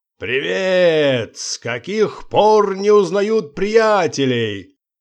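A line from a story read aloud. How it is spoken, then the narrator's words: Coarse laugh, shouting. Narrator (Russian): Он снова закатился скотским смехом и крикнул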